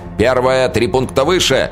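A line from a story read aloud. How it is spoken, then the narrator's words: Shouting out. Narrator (Russian): выкрикнул Дрекин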